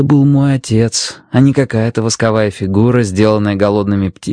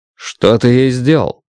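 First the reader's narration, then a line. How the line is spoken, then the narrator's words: Angry question. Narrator (Russian): спросил он сердито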